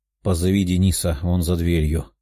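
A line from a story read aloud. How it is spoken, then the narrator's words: Tired young man. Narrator (Russian): уставшим голосом произнес парень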